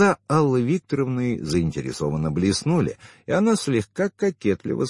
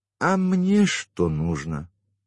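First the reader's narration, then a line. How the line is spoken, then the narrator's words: Sighing. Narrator (Russian): вздохнула Алла Викторовна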